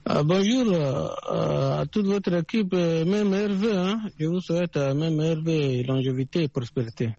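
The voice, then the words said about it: Chadian French accent. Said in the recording (French): “À suivre votre accent, on vous appelait du Tchad”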